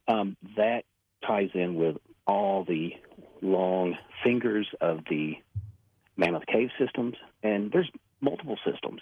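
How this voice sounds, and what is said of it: Strong Kentucky accent. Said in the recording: “my accent was coming out too strong”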